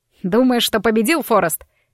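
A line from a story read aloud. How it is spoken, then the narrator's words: Barked. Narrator (Russian): рявкнул он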